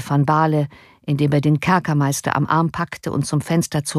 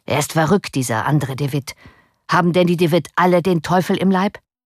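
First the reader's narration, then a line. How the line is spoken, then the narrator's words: Called out. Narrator (German): rief er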